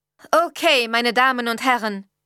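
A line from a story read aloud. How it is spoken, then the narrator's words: Loud. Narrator (German): sagte laut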